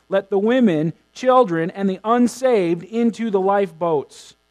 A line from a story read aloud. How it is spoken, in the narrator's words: As the freezing waters began to fill the ship, Harper was heard shouting